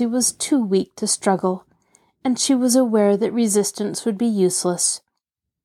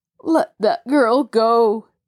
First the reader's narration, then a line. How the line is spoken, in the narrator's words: Jacob Aborn pleaded from the other side of the room